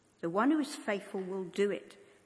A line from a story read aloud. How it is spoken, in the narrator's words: says Paul